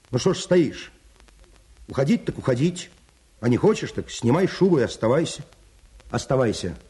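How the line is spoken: Stern annoyed shout. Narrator (Russian): досадуя на свою бесхарактерность, он крикнул ей сурово

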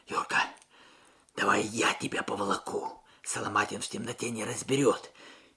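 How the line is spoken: Muffled whisper. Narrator (Russian): Алексей, прижавшись губами к мокрому капюшону товарища, прошептал

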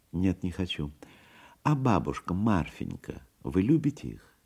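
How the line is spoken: Thoughtful question. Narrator (Russian): Задумчиво перешел он к новому вопросу

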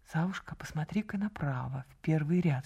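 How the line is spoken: Whisper. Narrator (Russian): шепнула она

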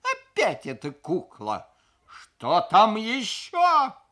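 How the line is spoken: Howling cry. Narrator (Russian): взвыл я

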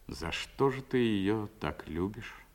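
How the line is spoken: Almost sad question. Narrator (Russian): спросил почти грустно

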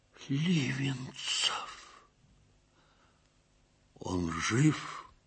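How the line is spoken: Quiet question. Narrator (Russian): негромко спросил Ковалевский

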